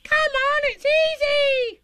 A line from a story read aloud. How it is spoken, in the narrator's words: squeaked Roo